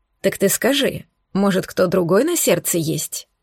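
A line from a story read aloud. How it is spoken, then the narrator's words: Quiet question. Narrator (Russian): спросил тихо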